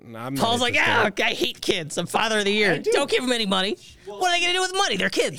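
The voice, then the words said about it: Imitates another person's voice. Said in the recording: “That's my Paul impression.”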